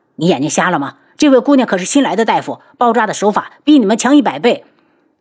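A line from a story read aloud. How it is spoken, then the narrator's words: Angry. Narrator (Chinese): 身后的伤员已经大怒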